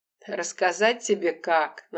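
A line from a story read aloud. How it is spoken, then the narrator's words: Mocking. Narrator (Russian): насмешливо проговорил Леня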